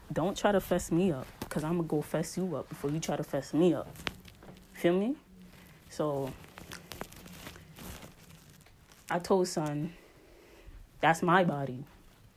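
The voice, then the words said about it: Put-on New York accent. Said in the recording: “in my New York accent”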